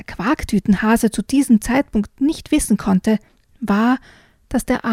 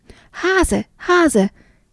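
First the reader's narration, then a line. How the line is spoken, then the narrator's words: Small bat calling. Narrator (German): rief die kleine Fledermaus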